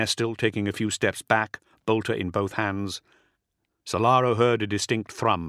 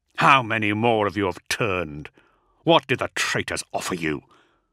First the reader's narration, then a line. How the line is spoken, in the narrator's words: Agapito snarled